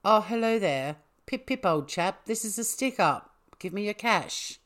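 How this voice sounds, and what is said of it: Poorly done English accent. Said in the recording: “That sucks. I can normally do quite a good English accent.”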